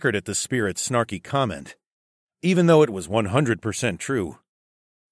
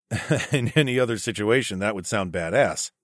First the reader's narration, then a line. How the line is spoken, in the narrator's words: chuckled